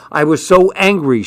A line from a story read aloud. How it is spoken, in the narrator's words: she said